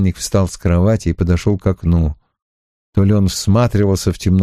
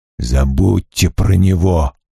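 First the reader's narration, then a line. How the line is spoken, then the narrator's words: Hiss. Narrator (Russian): прошипел Трей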